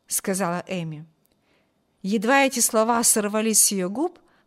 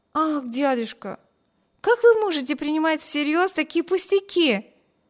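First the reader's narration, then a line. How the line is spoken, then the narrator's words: Stung, hurt exclamation. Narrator (Russian): воскликнула задетая за живое Эми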